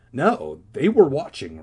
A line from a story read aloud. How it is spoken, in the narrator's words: Regina insisted excitedly